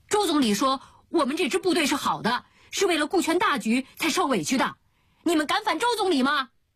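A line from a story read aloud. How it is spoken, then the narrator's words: Heated young man shouting. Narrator (Chinese): 他那年轻的胸腔一热……就喊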